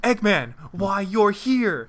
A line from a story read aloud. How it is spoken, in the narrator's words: asked Sonic, and shouted at Eggman